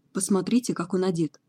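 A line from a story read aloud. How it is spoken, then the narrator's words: Whisper. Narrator (Russian): прошептал Локвуд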